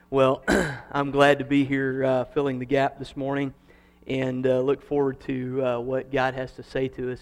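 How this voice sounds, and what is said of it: Kansas accent. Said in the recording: “how's my Kansas accent going? Is it better? No, you're still laughing at me.”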